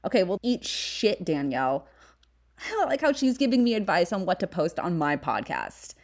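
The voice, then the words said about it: Valley girl accent. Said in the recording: “white girl with a millennial accent ... white girl millennial accent talk ... my Valley girl talk. I was born and raised in the San Fernando Valley, so that's probably what you're hearing.”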